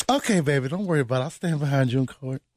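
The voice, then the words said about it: Put-on woman's voice. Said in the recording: “Don't do the accent. ... I don't even know what that voice is. ... A woman's voice. ... This is ... version of what women sound like.”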